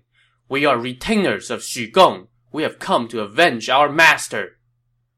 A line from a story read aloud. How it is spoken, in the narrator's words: His two comrades shouting